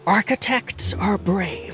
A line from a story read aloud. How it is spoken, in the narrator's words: Iggy whispered